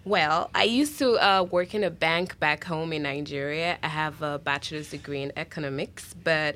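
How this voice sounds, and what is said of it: Foreign accent. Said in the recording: “You have a great accent.”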